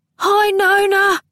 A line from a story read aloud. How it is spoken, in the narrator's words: Honesty bawled in some agitation